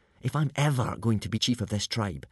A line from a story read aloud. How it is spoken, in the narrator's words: whispered Hiccup to Fishlegs